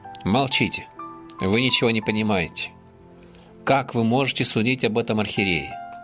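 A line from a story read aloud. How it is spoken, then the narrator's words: Angry, menacing command. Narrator (Russian): Услышав наше осуждение и дерзкие слова, в сердцах грозно повелел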